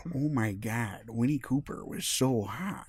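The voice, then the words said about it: Imitates another person's voice. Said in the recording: “my awful Daniel Stern impression”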